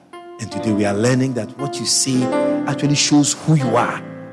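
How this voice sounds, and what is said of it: Strong accent in English. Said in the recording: “they don't understand because of my accent and the way I speak”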